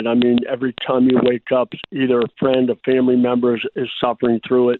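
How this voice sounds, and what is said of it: Altered, impaired speech. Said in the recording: “my speech, my voice is not the same as it used to be ... So my speech isn't quite what”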